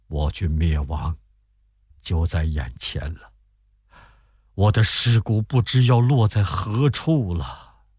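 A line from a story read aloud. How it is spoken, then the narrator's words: Tearful sigh. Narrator (Chinese): 沮授含泪长叹说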